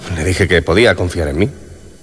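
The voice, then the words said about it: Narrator voice. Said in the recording (Spanish): “voz perfecta de narrador”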